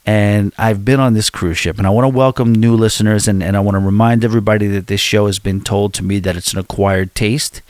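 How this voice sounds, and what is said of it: Mild New York accent. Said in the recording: “I don't think I have that bad of a New York accent compared to a lot of people”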